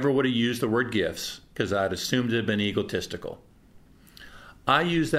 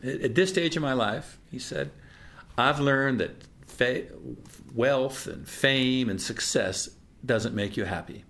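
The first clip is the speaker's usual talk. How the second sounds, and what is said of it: Put-on Southern US accent. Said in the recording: “I almost want to go into a Southern accent”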